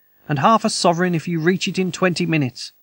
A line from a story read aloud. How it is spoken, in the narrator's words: cried